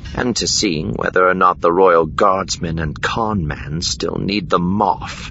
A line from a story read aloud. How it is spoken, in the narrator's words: Deesra muttered aloud after him